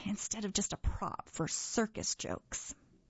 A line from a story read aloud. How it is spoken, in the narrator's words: she muttered